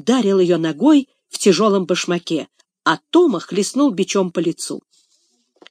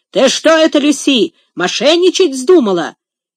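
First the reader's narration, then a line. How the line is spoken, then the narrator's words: Fierce guttural shout. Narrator (Russian): Он крикнул свирепым гортанным голосом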